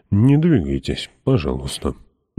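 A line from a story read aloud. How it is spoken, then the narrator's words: Quiet. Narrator (Russian): негромко произнес король Билли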